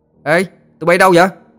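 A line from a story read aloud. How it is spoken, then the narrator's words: Exclaiming. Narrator (Vietnamese): Nó kêu lên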